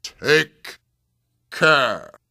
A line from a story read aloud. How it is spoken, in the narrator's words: thundered Zafusa